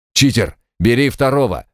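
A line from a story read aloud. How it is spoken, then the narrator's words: Barked over radio. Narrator (Russian): рявкнула рация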